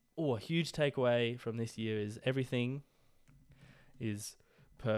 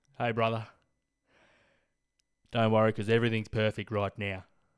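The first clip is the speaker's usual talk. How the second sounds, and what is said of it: Cricket commentator style voice. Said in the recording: “why I sounded like a cricket commentator, but that was the character that I portrayed”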